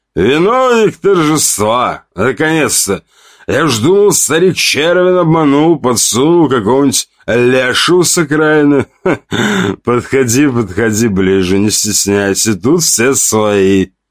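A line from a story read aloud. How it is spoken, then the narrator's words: Loud hoarse laugh. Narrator (Russian): Он засмеялся громко, с неприятной хрипотцой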